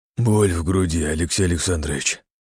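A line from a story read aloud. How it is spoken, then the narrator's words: Hoarse wheeze. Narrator (Russian): прохрипел Углов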